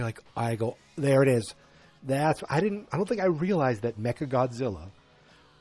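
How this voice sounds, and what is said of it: Usual voice. Nothing is said of it.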